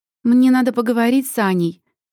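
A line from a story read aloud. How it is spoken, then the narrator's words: Loud. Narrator (Russian): громко произносит Леся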